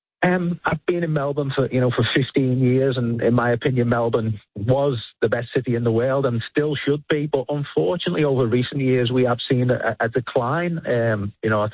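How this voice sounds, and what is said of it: Foreign, non-Australian accent. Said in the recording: “you obviously have an accent from elsewhere in the world”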